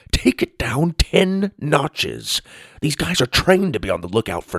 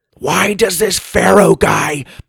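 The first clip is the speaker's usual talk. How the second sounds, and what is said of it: Loud, scratchy fake whisper. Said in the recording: “whispered, but really just made his voice scratchier, not quieter. ... Is that whispering for you? Yes, you're loud.”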